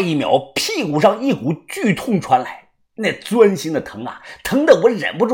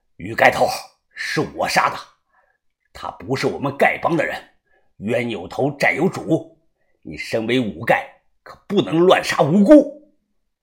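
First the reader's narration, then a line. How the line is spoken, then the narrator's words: Angry. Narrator (Chinese): 郑爷叔怒声的说道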